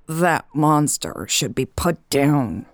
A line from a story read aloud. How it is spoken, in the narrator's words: Hobbs hissed